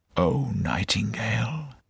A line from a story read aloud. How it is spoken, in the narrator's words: he whispered